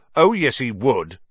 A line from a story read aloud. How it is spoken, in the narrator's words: said Ron, even more loudly than Dean